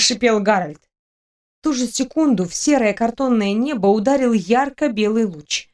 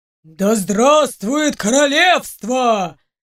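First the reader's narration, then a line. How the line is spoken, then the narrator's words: Deep bass roar. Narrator (Russian): Басом взревел кто-то из стражников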